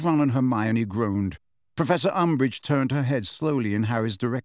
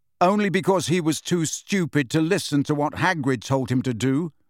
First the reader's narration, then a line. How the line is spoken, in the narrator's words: said Harry angrily